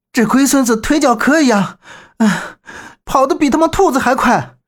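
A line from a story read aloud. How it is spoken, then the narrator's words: Panting, cursing. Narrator (Chinese): 周震气喘吁吁的直骂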